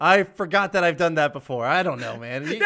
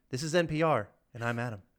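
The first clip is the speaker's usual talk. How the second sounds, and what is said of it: Imitates NPR radio announcer voice. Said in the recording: “I love your NPR voice. You do a good job.”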